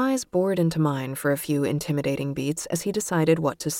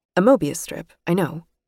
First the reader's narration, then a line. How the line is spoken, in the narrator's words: I said, a bit too quickly